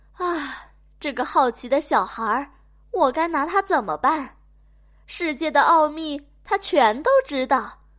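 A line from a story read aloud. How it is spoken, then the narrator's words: Parents sighing. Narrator (Chinese): 爸爸妈妈叹了口气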